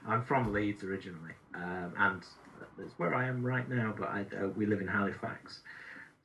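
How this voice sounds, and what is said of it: Mild Yorkshire accent. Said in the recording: “You've got a little bit of a hint of an accent there ... I have a slight Yorkshire accent ... it's a mild Yorkshire accent”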